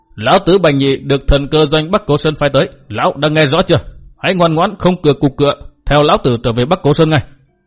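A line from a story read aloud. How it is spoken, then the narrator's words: Calm loud shout. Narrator (Vietnamese): Bành Nhị ung dung, miệng quát lớn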